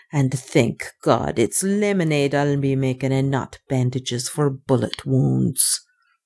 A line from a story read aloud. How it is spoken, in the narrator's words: she muttered darkly